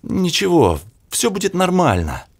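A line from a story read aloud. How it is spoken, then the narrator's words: Unsure. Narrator (Russian): неуверенно произнес Кубик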